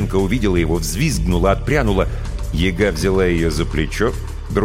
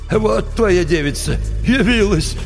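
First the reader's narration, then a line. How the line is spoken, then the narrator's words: Chuckling. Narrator (Russian): хохотнул Кощей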